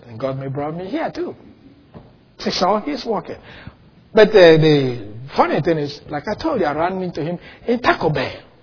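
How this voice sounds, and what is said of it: Speaks with a noticeable accent. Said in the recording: “Sure, I speak with an accent. I never doubt that. But then God gave me that accent.”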